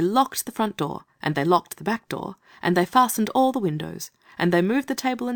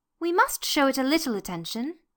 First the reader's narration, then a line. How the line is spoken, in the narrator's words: she said kindly